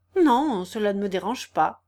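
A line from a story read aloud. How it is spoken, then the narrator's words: Curt, hurt, impatient. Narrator (French): dit un peu sèchement André, que ce ton de cérémonie impatientait et blessait réellement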